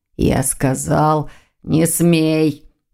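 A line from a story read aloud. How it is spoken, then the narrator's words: Demonic growl. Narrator (Russian): прорычал демон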